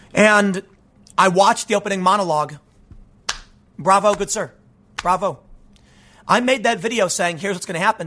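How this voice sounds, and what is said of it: Strained, worn-out voice. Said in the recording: “You can tell my voice is kind of hurt because I talked for like 4 hours yesterday.”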